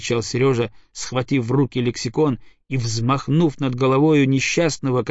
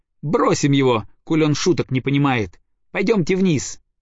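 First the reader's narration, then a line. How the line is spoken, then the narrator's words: Forced laugh. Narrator (Russian): сказал Сережа, неестественно засмеявшись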